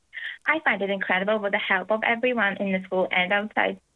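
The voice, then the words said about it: Ukrainian accent. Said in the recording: “you might tell from the accent she's originally from the Ukraine”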